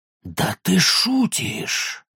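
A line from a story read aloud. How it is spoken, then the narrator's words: Hissed. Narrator (Russian): зашипел кто-то в ответ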